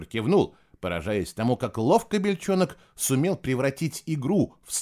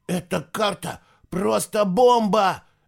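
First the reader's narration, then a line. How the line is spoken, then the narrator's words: Breathless exclamation. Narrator (Russian): выдохнул Чемп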